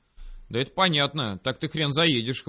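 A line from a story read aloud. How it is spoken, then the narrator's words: Scoffing. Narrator (Russian): хмыкнул он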